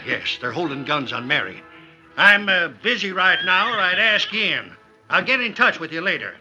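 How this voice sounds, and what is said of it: Loud voice, as if addressing a group. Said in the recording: “continued to talk in a loud voice as if speaking to a group”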